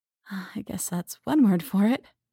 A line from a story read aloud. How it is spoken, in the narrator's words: sighed